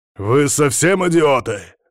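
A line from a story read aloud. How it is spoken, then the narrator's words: Barked shout. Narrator (Russian): рявкнул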